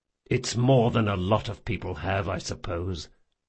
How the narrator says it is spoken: muttered Jean

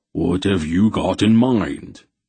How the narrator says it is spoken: Beric rumbled

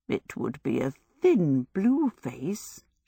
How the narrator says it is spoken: she murmured

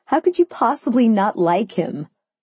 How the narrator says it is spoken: I laughed

